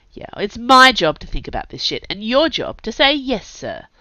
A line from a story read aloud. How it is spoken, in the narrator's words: the gaffer snarled